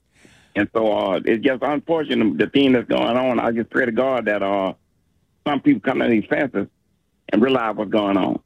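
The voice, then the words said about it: Speaks with a noticeable accent. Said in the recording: “Love your accent, by the way.”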